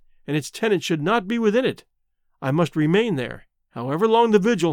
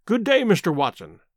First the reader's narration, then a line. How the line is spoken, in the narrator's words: cried he, with unwonted good humor